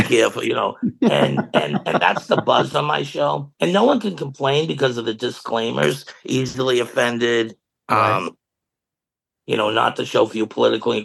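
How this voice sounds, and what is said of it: Strong Boston accent. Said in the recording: “you don't have the same accent as when you left ... Never lost my accent. ... Yours is still strong”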